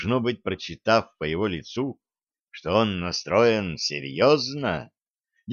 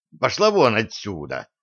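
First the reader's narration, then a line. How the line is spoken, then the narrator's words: Officer barking sharply. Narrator (Russian): прикрикнул поручик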